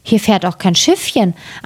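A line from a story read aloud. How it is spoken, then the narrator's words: Plain. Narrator (German): antwortete Gretel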